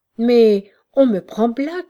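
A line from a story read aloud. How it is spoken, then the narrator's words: Exclaimed. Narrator (French): s'écria-t-il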